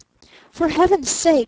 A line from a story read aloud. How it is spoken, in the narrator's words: he cried